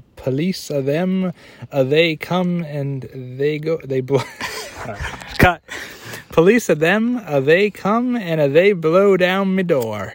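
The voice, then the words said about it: Put-on Jamaican accent. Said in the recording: “You can do a Jamaican accent ... That was pretty good, though. That was good.”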